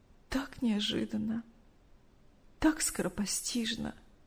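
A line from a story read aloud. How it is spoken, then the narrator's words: Tearful telling. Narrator (Russian): сквозь слезы рассказывала Мария Ивановна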